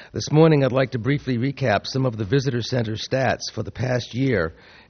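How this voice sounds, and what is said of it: Hoarse voice. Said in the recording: “pardon my voice this morning. It's left me a little bit hoarse,”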